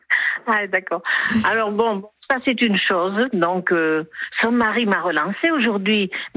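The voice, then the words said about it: Light southwestern French accent. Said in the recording (French): “accent du Sud, à Toulouse ? ... Je reconnaissais le petit accent du Sud-Ouest.”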